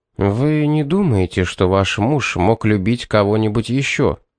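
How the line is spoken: Plain. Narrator (Russian): спросил он

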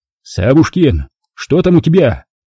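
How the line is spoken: Shouting with full force. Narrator (Russian): Что есть силы, закричал Пятницкий

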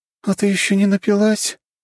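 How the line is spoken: Hoarse giggle. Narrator (Russian): хрипло хихикала Лиза

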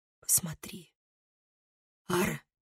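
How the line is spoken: Bitter whisper. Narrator (Russian): с горечью прошептала она

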